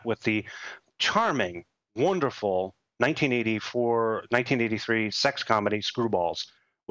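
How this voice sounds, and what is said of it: Sarcastic praise. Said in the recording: “I'm just being sarcastic.”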